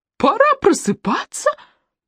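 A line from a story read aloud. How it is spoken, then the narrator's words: Rising to a shriek. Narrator (Russian): Голос поднялся до визга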